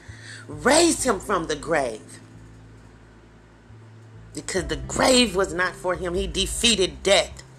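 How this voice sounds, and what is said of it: Emotional, choked-up speech. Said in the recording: “Oh, I'm sorry, guys. I get emotional”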